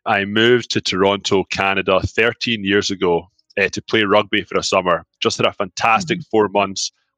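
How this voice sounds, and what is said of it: Scottish accent. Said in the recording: “I'm from Scotland. I do have an accent. It's not going anywhere.”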